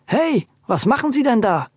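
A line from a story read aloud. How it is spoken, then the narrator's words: Indignant shout. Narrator (German): rief der normalerweise zurückhaltende Audencio empört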